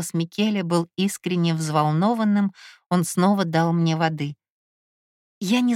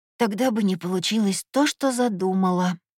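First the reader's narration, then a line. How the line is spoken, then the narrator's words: Hoarse reply. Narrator (Russian): хрипло отозвалась я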